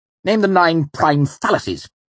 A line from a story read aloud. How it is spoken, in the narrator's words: he snapped